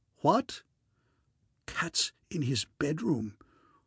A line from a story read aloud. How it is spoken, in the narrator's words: I heard Sir Roderick whisper in a kind of stricken way